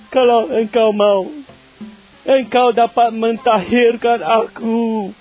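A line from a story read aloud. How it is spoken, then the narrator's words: Pleading sick man. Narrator (Indonesian): Seorang yang sakit kusta memohon bantuannya, katanya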